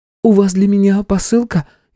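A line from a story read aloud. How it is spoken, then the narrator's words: Frightened. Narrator (Russian): испуганно произнесла Илона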